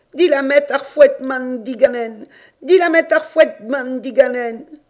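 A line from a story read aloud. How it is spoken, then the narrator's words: Heartrending cry. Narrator (French): Et elle criait d'une voix déchirante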